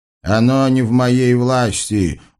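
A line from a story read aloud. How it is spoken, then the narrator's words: Wise genie's snort. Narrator (Russian): хмыкнул мудрый джин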